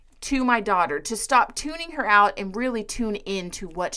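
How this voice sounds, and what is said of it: Usual voice. Nothing is said of it.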